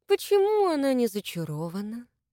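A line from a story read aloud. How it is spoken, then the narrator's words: Affectionate question. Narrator (Russian): Ласково поинтересовался Абрамцев у своей жрицы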